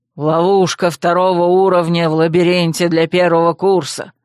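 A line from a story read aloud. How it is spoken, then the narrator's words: Growl. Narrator (Russian): рыкнул Гшан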